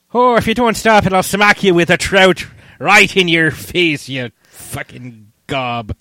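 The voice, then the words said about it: Exaggerated, poorly done Irish accent. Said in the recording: “a really horrible Irish accent ... Kind of sounds like the leprechaun from The Simpsons”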